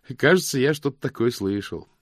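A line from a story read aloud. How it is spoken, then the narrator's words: Cheerful reply. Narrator (Russian): весело ответил мокрец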